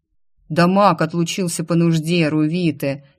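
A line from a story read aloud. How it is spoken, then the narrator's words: Guard's laughing remark. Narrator (Russian): хохотнул стражник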